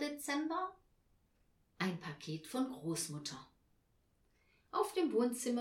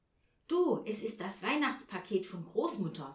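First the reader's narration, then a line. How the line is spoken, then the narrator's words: Excited. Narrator (German): sagte er aufgeregt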